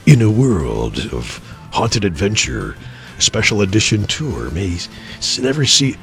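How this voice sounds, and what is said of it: Dramatic movie trailer announcer voice. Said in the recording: “put on my trailer voice”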